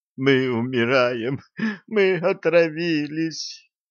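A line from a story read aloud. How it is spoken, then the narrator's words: Sobbing. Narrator (Russian): прорыдал Леха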